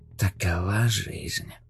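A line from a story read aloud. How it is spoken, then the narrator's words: Mutter. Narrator (Russian): пробормотал он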